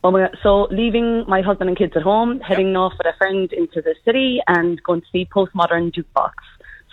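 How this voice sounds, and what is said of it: Irish accent. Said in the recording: “the Irish accent stays with me ... your accent's never going to go”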